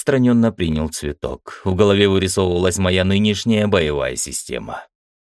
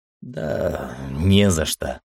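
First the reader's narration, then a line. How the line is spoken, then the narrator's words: Absent-minded mumble. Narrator (Russian): пробормотал я, все еще пребывая в мыслях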